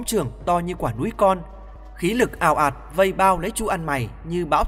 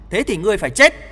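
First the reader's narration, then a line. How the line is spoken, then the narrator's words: Shout. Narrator (Vietnamese): tiếng hét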